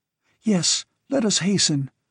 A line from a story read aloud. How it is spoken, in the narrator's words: begged the girl, almost hysterical again